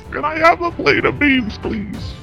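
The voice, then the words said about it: Old man voice impression. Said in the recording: “your best old guy impersonation.”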